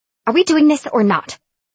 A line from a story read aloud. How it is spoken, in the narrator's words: Nora snapped